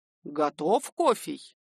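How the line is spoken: Stern. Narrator (Russian): строго Дуняша

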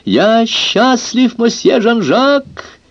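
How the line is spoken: Shouted. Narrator (Russian): крикнул он

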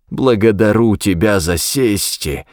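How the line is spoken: Hoarse wheeze. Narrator (Russian): просипел папа Манзана

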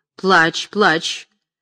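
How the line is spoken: Menacing tone. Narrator (Russian): Орлеанская грозно говорила

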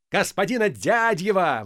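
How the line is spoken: Delighted shout. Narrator (Russian): восторженно закричал Полисов

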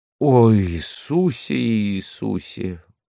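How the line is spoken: Frantic desperate sobbing. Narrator (Russian): зарыдала, словно безумная, или как человек, видящий, что не отнимет у неумолимой смерти дорогое существо

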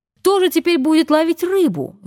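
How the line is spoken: Shouting. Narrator (Russian): закричал Кук

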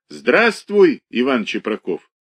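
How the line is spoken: Drunk, neighing laughter. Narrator (Russian): Пьяный ... смеялся, точно ржал

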